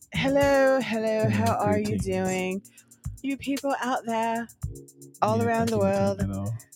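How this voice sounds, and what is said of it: Put-on accent. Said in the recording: “I hope you like my accent. I don't know what I'm doing right now. ... It doesn't sound like you do.”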